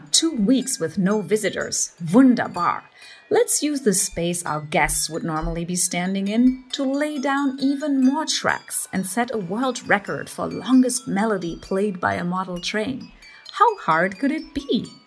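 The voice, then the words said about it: German accent. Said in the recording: “I suck at doing a German accent. Here's my producer, ... who is from Germany, reenacting your inner monologue.”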